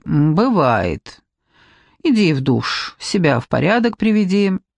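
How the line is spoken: Calm reply. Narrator (Russian): он так спокойно отвечает

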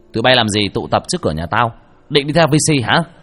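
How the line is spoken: Loud. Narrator (Vietnamese): Hiếu lớn tiếng

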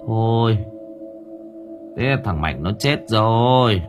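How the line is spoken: Dazed sigh. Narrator (Vietnamese): Một người thở dài bần thần

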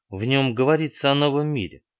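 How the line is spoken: Soft. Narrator (Russian): мягко произнес Моррис

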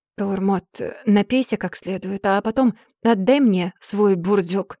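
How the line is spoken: Hoarse croak. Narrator (Russian): я прохрипела

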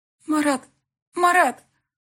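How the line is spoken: Strained, forced out. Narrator (Russian): Только и смогла я выдавить из себя

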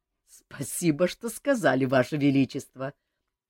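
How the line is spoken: Laughing. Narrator (Russian): засмеялся Жак

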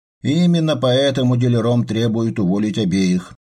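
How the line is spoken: Sighing. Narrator (Russian): вздохнул Адамс

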